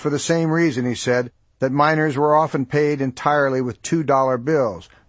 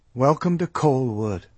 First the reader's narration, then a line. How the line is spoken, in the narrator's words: Mom muttered to his back